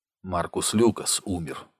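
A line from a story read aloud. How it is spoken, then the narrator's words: Quiet. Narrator (Russian): сказал он тихо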